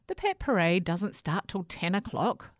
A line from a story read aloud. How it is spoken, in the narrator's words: said Herbert's mum